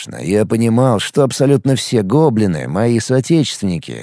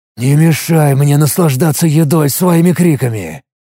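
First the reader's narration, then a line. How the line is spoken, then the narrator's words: Displeased hiss. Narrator (Russian): Недовольно прошипел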